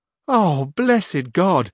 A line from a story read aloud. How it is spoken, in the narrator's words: exclaimed Sancho aloud at this